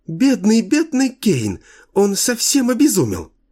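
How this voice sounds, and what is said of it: Ringing, almost childlike chirping voice. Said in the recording (Russian): “прощебетала она звонким, почти детским голоском”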